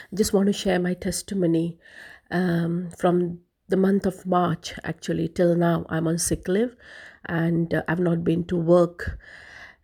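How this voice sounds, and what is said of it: Voice strained and unwell. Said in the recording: “My voice is a bit distraught today because of the hay fever.”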